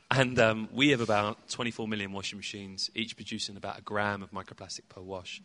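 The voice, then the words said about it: British accent. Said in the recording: “as you can tell via my accent, I'm from the UK.”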